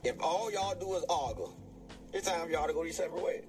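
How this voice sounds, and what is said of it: Thick regional accent. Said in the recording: “accent so thick”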